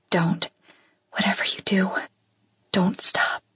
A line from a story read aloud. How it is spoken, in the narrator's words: whisper